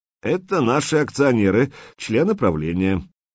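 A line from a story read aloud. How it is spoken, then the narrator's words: Forced cheerful announcement. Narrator (Russian): искусственно бодро объявил Скворцов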